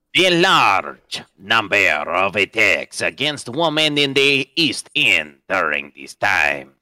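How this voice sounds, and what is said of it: Thick put-on accent, hard to understand. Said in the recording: “speaking in that entire accent ... I can't understand a single word of what you're saying.”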